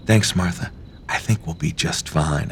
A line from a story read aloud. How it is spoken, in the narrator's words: I whisper back to her